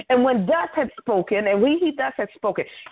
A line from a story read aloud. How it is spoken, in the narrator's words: he cried with a loud voice